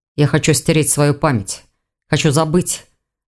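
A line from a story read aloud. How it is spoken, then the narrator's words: Dragon growling. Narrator (Russian): зарычал дракон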